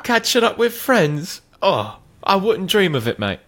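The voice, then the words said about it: Unpolished put-on British accent. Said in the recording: “What was that accent? ... I need to work on my accent before I get over there.”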